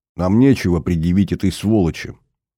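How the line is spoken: Harsh voice. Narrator (Russian): говорит жестким голосом Тави

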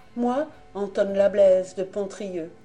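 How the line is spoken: Ship's boy exclaiming. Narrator (French): s'écria le mousse

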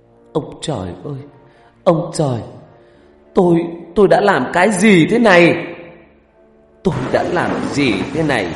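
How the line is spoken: Wailing scream. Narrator (Vietnamese): người đàn bà này ... gào khóc, thét lên

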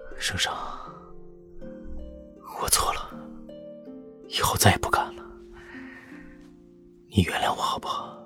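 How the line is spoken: Heavy breathing, forced gentleness. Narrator (Chinese): 薛远呼吸粗重，还是勉强柔声道

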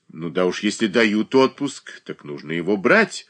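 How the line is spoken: Sharp. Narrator (Russian): резко произнесла Зубова

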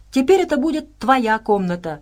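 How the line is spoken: Delighted exclamation. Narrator (Russian): в восторге воскликнула Саша

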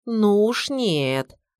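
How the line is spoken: Firm drawl. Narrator (Russian): решительно протянула мама

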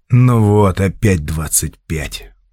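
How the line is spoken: Weary sigh. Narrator (Russian): устало вздохнул номер третий

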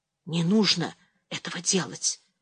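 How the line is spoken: Whispered warning. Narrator (Russian): шепотом предупредила Анжелика

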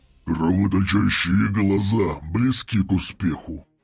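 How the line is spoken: Demon growling. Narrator (Russian): прорычал демон

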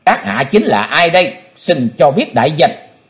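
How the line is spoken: Disappointed stern question. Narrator (Vietnamese): Chí Tôn thất vọng nghiêm nghị hỏi

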